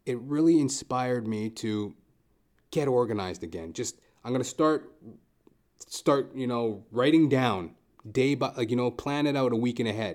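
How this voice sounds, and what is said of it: Raspy throat. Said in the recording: “this raspy throat that I got from this run that I took,”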